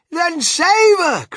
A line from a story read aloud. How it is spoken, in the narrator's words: cried Mrs